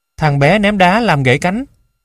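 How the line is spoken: Shrill cry. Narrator (Vietnamese): Vợ Daisy kêu the thé

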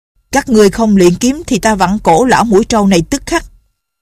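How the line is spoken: Man shouting. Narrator (Vietnamese): Hán tử đó quát

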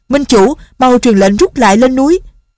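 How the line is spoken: Shouting. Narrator (Vietnamese): Kế Vô Thi la lên

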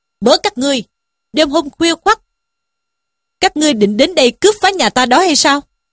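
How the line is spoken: Shouted question. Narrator (Vietnamese): quát hỏi

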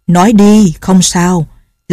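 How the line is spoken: Smiling. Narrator (Vietnamese): Nhậm Ngã Hành mỉm cười nói

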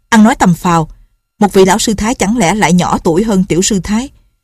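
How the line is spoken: Sharp shout. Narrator (Vietnamese): Lệnh Hồ Xung quát

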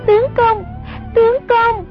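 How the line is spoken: Panicked cry. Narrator (Vietnamese): Sông Nhi hoảng sợ hồn bất phụ thể, kêu lên

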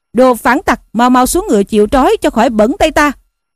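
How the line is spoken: Shouting. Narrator (Vietnamese): Cao Liêm quát rằng

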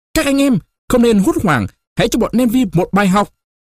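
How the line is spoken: Rallying battle shout. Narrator (Vietnamese): Chiến binh quân đoàn 10 oai hùng tập hợp xung quanh Caesar, chẳng hét to

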